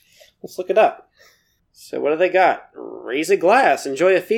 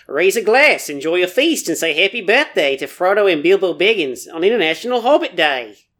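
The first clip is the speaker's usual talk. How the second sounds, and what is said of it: Put-on New Zealand accent. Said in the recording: “I should do New Zealand accent, right?”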